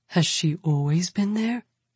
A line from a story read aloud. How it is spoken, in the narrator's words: Billy murmurs